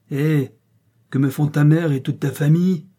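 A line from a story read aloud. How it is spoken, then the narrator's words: Yelled. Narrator (French): hurla Van Cock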